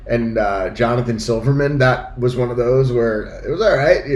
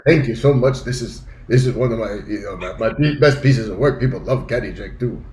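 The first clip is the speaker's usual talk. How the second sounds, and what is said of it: Jackie Mason accent impression. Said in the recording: “great accent impression of him”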